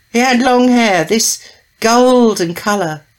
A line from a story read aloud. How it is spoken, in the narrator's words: she said this wistfully, as if it would be nice to have golden hair